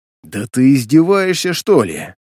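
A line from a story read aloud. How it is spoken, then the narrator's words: Hiss. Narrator (Russian): Прошипел я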